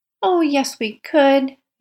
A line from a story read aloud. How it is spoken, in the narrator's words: Nan exclaimed